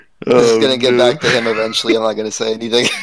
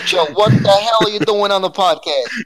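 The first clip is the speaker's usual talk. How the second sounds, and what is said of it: Brooklyn Italian accent. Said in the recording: “the very Brooklyn Italian accent there”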